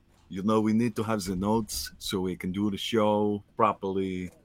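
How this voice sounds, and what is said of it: Bad Arnold impression, Brooklyn-leaning accent. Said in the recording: “That was a really bad Arnold that leaned into like a Brooklyn guy accent.”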